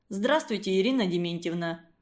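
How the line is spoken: Gloomy. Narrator (Russian): мрачно сказал он

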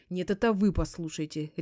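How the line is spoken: Sharp interruption. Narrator (Russian): резко оборвала

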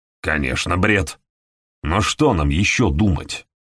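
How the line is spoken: Angry question. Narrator (Russian): Сердито спросил Хэдли

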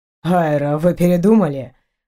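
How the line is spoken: Mocking question. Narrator (Russian): Насмешливо поинтересовался Эйнар

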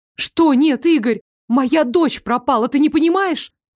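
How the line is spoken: Struggling woman shouting. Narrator (Russian): закричала, пытаясь вырваться из его хватки

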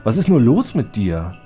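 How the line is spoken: Sighing. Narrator (German): seufzte Snows Besitzer

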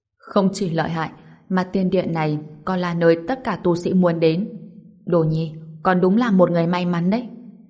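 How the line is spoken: Loud laughing speech. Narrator (Vietnamese): Trần Đạo Huyền cười lớn nói

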